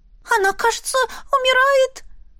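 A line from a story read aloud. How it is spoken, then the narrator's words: Sobbing woman. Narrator (Russian): Эва и всхлипнула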